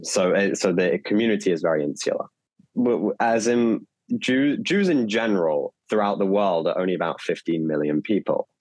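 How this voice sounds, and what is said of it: English accent. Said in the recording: “as you can tell from my accent, I'm from England”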